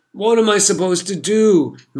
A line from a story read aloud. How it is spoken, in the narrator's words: moaned